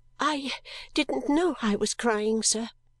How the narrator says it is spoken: I faltered

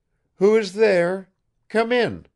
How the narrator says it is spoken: called out Fenichka's voice

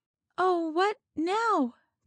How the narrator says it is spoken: cried Reuther, but with a rising head instead of a sinking one

